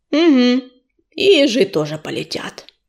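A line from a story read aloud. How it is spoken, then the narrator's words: Grumbled. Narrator (Russian): буркнул Белохвост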